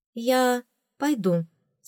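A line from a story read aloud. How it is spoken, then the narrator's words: Plain. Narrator (Russian): сказала ему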